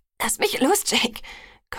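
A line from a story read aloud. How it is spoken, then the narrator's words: Gasping. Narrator (German): keuchte ich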